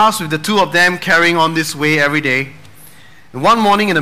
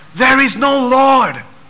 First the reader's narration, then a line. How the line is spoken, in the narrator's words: he'll yell